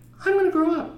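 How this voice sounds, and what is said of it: Impression of the other speaker. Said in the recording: “That's my impression of you.”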